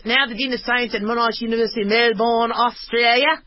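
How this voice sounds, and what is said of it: Put-on Australian accent. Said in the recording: “I need to do this in an Australian accent.”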